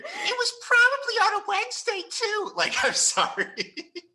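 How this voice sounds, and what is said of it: Imitates another person's voice. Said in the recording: “An impression of you doing a character.”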